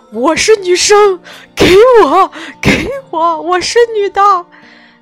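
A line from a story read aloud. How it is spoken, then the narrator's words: Shouting from below. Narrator (Chinese): 男生在底下喊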